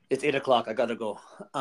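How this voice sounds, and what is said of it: Low, mellow impression of an actor. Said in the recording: “That terrible impression again ... I'm going to do like low, mellow Arnold.”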